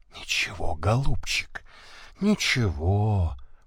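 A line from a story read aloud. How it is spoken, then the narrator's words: Whispered. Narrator (Russian): прошептала она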